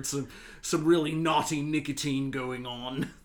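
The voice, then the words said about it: Put-on British accent. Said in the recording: “I don't know why I just put on an accent there... naughty nicotine sounds great in a British accent”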